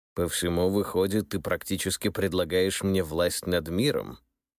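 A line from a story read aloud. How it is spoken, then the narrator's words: Snorting. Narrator (Russian): Михаил II хмыкнул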